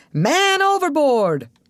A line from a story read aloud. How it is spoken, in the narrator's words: one of the deckhands yelled